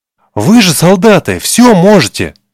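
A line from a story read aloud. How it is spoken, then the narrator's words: Boy exclaiming. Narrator (Russian): воскликнул мальчик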